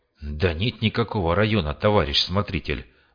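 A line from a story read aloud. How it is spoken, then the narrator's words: Sighing. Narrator (Russian): вздохнул фельдшер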